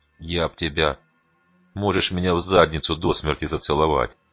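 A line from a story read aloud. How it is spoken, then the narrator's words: Calm. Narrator (Russian): спокойно ответил угольщик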